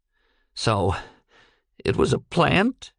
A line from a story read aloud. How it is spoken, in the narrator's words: he cracked, and his voice trembled with rage